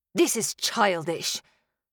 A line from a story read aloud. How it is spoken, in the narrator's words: he spat